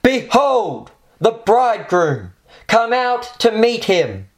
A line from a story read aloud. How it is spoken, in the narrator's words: With the voice of an archangel, a shout rings out from heaven